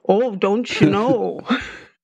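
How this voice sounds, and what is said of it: Minnesotan accent with drawn-out O's. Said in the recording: “I thought I lost my accent ... half the plane is folks from Minnesota. And all of a sudden I hear the O's”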